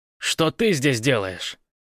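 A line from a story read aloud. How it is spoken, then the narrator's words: Growl. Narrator (Russian): зарычал он ей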